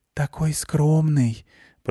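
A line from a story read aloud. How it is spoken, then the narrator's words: Girlish whisper. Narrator (Russian): прошептал в углу девичий голосок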